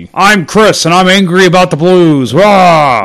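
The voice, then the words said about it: Imitates another person's voice, angry. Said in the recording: “my best Chris impersonation”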